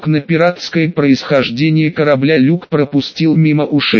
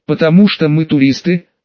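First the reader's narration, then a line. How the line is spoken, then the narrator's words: Calm reply. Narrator (Russian): спокойно ответил он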